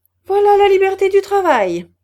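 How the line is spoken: Exclaimed. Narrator (French): s'écria M

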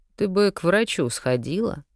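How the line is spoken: Lazy. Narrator (Russian): лениво проговорил маг

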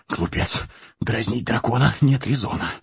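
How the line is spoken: Muttering while running. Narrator (Russian): бормотал Бильбо на бегу

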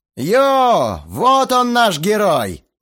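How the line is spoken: Shouted. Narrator (Russian): выкрикнул

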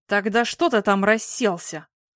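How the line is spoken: Angry, through clenched teeth. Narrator (Russian): зло цедил сквозь зубы Александр

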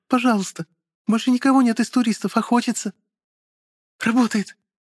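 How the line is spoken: Squeaky voice. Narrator (Russian): Пискнула Марина

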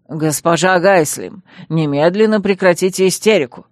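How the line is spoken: Growl. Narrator (Russian): рыкнул мэр Хант

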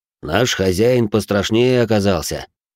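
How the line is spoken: Snorting scoff. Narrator (Russian): хмыкнул Сердан

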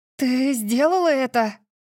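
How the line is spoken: Breathless exhale. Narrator (Russian): выдохнула я

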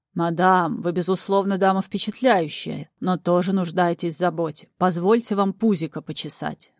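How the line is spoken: Deep booming voice, demon. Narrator (Russian): басил демон

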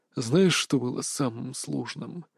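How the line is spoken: Quiet question. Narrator (Russian): тихо спросил Марк

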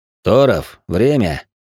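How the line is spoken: Deceptively calm, curt. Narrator (Russian): вновь обманчиво спокойно бросил легат

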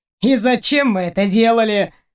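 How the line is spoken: Boy snorting. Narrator (Russian): фыркнул курчавый парнишка

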